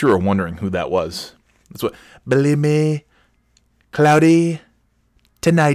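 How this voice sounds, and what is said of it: Usual voice. Nothing is said of it.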